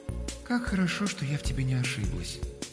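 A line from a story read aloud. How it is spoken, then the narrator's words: Cooing. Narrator (Russian): проворковала Алёнушка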